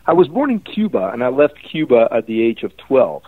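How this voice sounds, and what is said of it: Slight foreign accent. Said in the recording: “You have a slight accent.”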